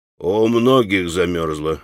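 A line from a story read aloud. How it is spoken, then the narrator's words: Calm sententious reply. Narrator (Russian): спокойно и сентенциозно промолвил в ответ мужик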